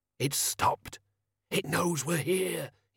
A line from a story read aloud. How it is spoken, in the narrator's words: he hissed